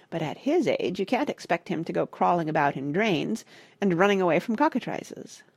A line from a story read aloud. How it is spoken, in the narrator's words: said Parrot dryly